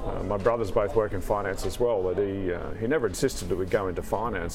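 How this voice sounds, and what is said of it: Australian accent. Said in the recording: “listeners may be able to detect the accent ... Australian, obviously”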